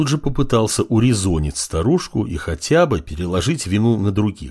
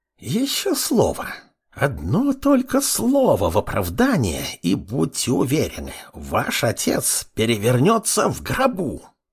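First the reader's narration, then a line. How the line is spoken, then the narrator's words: Old woman hissing. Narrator (Russian): Прошипела старушка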